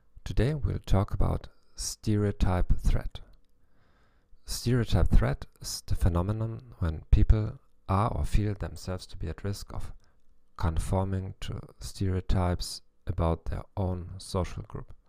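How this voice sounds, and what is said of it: German accent in English. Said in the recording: “in English with a German accent”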